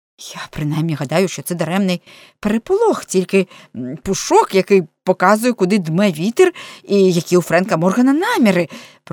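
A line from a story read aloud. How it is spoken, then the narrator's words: Muttered with forced smile. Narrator (Ukrainian): пробурмотів із вимушеною усмішкою Торрес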